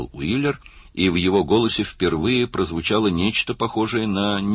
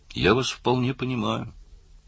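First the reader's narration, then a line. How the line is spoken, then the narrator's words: Soft. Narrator (Russian): мягко сказал Карл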